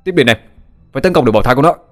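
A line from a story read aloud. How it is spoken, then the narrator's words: Shouting. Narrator (Vietnamese): tiếng hét của Toàn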